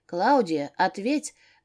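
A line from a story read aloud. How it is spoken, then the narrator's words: Anxious. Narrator (Russian): добавила я, взволнованно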